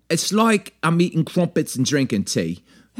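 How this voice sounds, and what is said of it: Rough put-on English accent. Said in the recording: “it's not Australian accent that you do. It's an English accent right. That you do... That was a rough English accent right there.”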